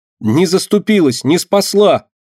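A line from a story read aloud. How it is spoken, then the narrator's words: Angry shouting mouse. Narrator (Russian): гневно кричала мышка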